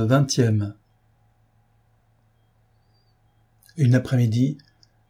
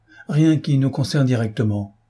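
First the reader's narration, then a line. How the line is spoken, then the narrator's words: Plain. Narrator (French): répondit Sorov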